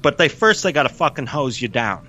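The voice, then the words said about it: Put-on New York accent. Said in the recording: “He didn't break into a New York accent. I just feel like the best way to say fucking hose you down. ... that was me”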